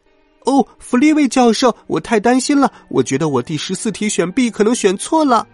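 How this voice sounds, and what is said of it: Shrill, high-pitched female voice. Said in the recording (Chinese): “他装出一种尖细的女声”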